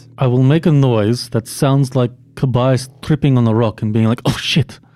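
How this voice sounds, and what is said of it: Monotone put-on Russian accent. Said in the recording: “I can hear in that Russian accent, oh. It's like a very monotone.”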